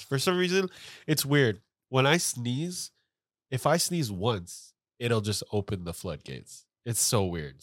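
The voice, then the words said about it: Stuffy, congested voice. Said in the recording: “I am so stuffy right now”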